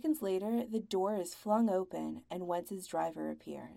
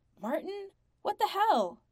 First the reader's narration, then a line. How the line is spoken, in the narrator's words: Wentz jerks away, swears loudly, and shouts